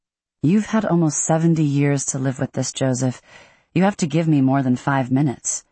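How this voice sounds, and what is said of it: Usual voice. Nothing is said of it.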